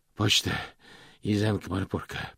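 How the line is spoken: Hoarse, rasping. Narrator (Russian): прохрипел он

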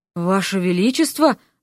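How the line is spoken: Breathless exhale. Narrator (Russian): выдохнул Миша

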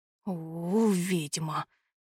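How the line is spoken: Mutter. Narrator (Russian): пробормотал он

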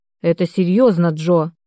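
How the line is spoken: Stern speech. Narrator (Russian): строго проговорил Виктор

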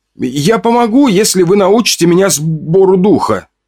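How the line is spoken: Shout. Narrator (Russian): крикнул

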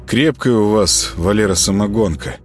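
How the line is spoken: Tipsy mumble. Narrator (Russian): промямлил Володаров, чувствуя, как по телу разливается тепло

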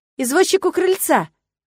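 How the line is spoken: Shouting toward another room. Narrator (Russian): крикнула она в направлении подсобки

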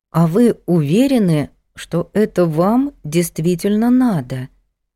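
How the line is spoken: Slow. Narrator (Russian): медленно проговорила Надя

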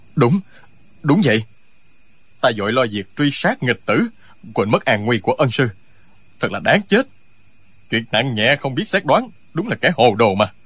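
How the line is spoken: Nervous, trembling voice. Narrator (Vietnamese): Tống Diễn Kiều toát mồ hôi lạnh, giọng run run nói

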